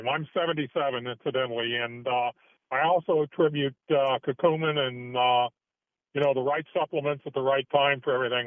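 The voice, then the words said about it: Deep radio announcer voice. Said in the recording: “you got a radio voice too”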